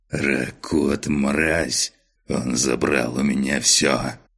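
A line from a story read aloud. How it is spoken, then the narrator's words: Hateful rasp. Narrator (Russian): С ненавистью прохрипел барон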